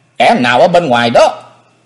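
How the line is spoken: Shout. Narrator (Vietnamese): Tiếng quát

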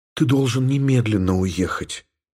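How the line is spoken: Whisper. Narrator (Russian): прошептала Елена

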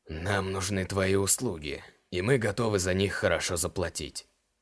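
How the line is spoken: Husky male voice. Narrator (Russian): хрипловатым голосом сказал один из мужчин

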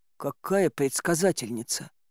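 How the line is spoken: Bewildered. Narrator (Russian): растерянно сказать

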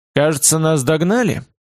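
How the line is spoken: Calm question. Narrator (Russian): поинтересовался спокойно

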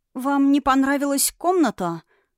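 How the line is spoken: Timid maid's question. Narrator (Russian): робко спросила служанка

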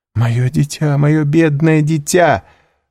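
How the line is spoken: Exclamation with muffled sobbing. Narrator (Russian): воскликнула баронесса, стараясь платком заглушить рыдание

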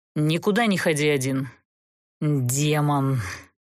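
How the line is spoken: Through gritted teeth. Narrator (Russian): Процедил сквозь зубы Даггард

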